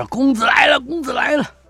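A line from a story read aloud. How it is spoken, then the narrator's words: Arrogant shouting servants. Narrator (Chinese): 众恶奴狐假虎威，嚷着说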